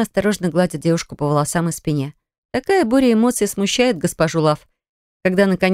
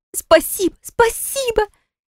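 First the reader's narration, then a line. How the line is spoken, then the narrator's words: Sobbing young woman. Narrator (Russian): тело молоденькой девушки сотрясли рыдания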